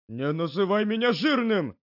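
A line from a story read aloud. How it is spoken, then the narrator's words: Yelling. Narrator (Russian): заорал Акимичи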